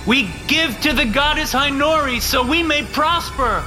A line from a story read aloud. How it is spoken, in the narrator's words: the pledges shouted